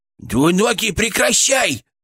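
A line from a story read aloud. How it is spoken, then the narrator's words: Shouting inside the head. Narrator (Russian): кричал Фырк в моей голове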